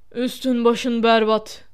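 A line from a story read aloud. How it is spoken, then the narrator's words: Hoarse voice. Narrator (Turkish): dedi boğuk bir sesle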